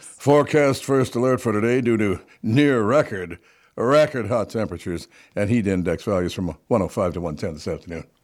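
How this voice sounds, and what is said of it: Serious TV weather forecaster voice. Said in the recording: “Should I pretend I'm a TV guy? ... That's a good TV voice. ... That very serious voice. With my weather delivery.”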